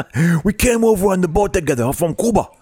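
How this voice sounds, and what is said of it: Italian accent shifting into Cuban accent. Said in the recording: “I started off as an Italian accent, turned into a Cuban accent. I don't do accents well”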